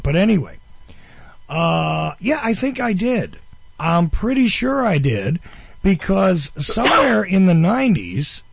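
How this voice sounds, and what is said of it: New Jersey accent. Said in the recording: “I lived in New Jersey, as you all well know, and you can tell from my accent.”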